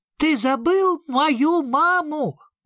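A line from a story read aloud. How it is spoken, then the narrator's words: Shout. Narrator (Russian): крикнул Сниф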